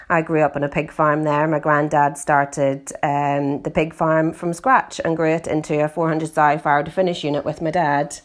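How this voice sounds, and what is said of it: Northern Irish accent. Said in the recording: “as you can hear from my accent, I'm originally from Northern Ireland.”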